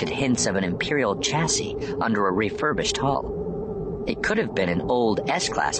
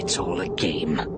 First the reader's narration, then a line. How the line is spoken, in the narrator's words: muttered to himself, in frustration